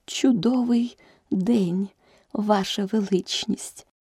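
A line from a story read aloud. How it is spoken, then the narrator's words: Barely audible duchess. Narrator (Ukrainian): почала герцогиня ледь чутним голосом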